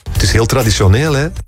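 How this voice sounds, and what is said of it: Slight Flemish accent. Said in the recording (Dutch): “Klinkt inderdaad een zeker internationaal ... Klein Vlaams accent.”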